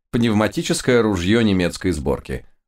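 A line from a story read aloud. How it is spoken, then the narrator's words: Satisfied purr. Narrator (Russian): удовлетворенно мурлыкнул мой учитель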